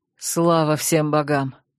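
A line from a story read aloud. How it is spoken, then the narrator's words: Breathless exhale. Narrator (Russian): выдохнул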